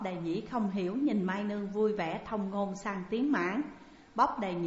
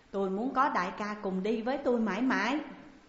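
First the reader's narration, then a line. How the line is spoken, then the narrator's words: Laughing loudly. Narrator (Vietnamese): Chàng cười lớn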